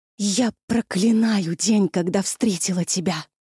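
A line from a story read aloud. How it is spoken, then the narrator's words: Convulsive gasping breath. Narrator (Russian): судорожно выдохнула она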